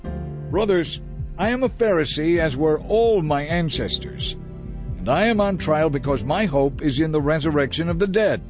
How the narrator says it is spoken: So he shouted

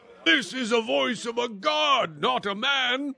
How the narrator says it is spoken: They shouted

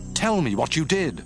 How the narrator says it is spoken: Saul exclaimed

